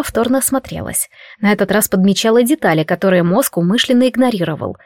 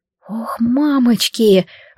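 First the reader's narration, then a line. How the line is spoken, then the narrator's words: Exhaled words. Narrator (Russian): выдохнула я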